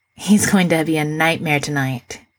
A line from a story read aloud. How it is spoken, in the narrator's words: he sighs